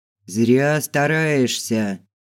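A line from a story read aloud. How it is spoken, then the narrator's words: Thunderous booming voice. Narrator (Russian): Громом с неба прогремел голос Филберта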